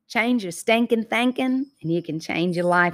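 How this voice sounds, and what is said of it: Southern US accent. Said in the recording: “Y'all hear that Southern accent come out when I say that? ... You can't take the Georgia peach out of the Georgia peach.”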